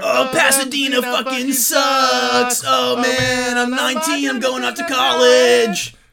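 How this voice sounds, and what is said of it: Imitates a pop-punk band's singing voice. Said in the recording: “my impersonation of Blink-182”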